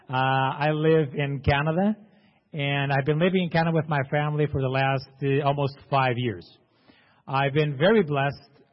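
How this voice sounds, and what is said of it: Portuguese accent. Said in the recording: “I'm Portuguese. That's why I have this terrible accent.”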